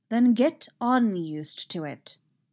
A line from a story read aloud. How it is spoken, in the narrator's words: Obi-Wan said firmly